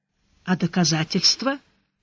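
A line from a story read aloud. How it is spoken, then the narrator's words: Tired question. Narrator (Russian): устало спросил Сварог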